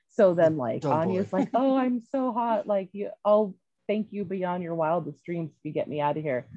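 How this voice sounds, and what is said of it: Usual voice. Nothing is said of it.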